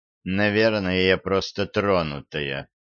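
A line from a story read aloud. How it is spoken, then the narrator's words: Gloomy remark. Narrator (Russian): мрачно заметила Лорелли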